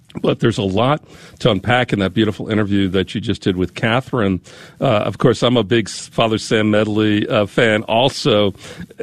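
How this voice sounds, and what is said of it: Hoarse, strained voice from a cold. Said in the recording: “I'm losing my voice ... I'm just getting over a cold here.”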